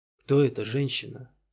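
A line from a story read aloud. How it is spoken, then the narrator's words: Quiet, indifferent question. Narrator (Russian): тихо и безразлично спросил Вайорель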